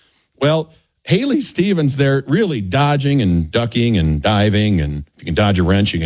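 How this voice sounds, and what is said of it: Usual voice. Nothing is said of it.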